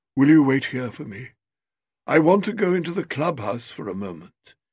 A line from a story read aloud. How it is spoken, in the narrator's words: he said in a low, vibrant voice